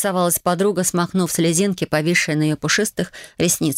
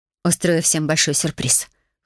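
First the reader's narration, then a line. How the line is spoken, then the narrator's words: Smirking snort. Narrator (Russian): хмыкнула я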